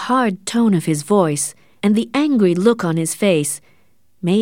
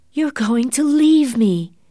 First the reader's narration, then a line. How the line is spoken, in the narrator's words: exclaimed